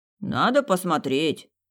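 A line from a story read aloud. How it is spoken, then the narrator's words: Calm booming male voice. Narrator (Russian): спокойно сказал мужчина зычным голосом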